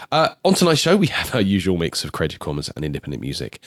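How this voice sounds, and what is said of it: Snuffly, congested voice. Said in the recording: “As you will tell in my voice, I'm a little bit snuffly at the moment.”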